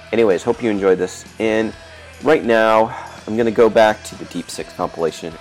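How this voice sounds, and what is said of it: Rough, congested voice. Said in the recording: “my voice has been a little rough, or I've been sniffling and got a head cold”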